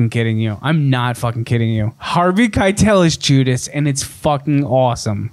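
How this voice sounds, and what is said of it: Usual voice. Nothing is said of it.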